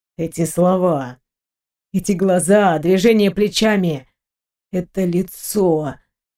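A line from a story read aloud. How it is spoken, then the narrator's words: Low muffled voice. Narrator (Russian): глухо проговорил молодой человек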